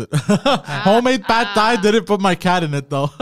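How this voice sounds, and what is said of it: Put-on Asian accent. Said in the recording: “I'm going to do it with the Asian accent too.”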